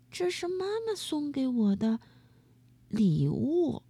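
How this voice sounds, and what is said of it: Quiet, soft-spoken line. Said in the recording (Chinese): “小声”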